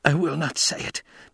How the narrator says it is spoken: Paul gasped

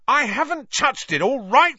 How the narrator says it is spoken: Ron roared back

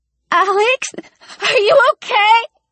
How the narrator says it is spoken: The girl was crying and screaming at the same time

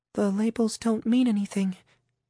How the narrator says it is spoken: Camille said, barely breaking over a whisper

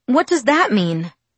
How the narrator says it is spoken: My voice quavered and I fought to control it

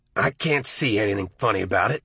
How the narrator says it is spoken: Arnie said, but his voice seemed distant, almost lost in the surf roar of blood in his ears

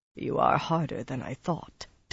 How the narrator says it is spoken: Taim muttered

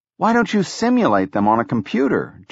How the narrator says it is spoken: Jobs asked

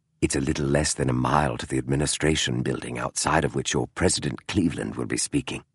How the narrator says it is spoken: Holmes said softly so the driver could not hear

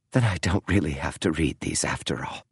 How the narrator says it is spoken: she whispered

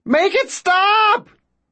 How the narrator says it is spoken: Ben shouts

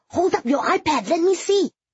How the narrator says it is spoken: Nadine said excitedly

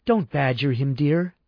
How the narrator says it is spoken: said softly

